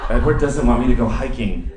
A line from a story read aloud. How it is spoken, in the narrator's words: Bella said